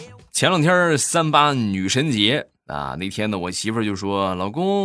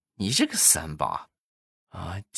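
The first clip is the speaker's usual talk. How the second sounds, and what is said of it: Quiet, muttered aside. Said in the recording (Chinese): “小声说了一句”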